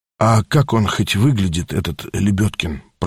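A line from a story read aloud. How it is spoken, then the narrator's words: Whisper. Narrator (Russian): прошептал Степа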